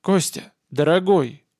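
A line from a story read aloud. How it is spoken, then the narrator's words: Armorer speaking calmly. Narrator (Russian): спокойно начал оружейник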